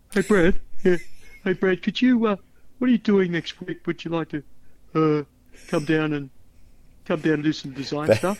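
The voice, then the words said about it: Imitates another person's voice. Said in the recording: “this is how he sounded. May I mimic him?”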